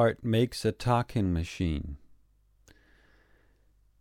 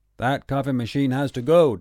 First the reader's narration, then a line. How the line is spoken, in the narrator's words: Daddy shouts